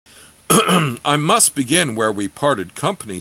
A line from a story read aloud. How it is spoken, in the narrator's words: said Geller, as his chuckling subsided